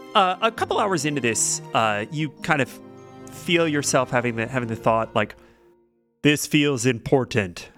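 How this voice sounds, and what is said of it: Good character voice of a guard. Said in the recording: “Was that your guard impression? ... Yeah. ... That was good.”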